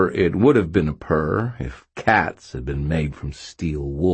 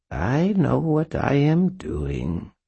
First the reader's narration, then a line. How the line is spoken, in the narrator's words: Mab purred